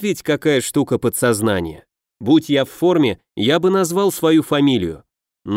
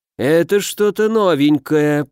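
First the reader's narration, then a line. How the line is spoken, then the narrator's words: Drawling. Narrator (Russian): протянул декан Живчиков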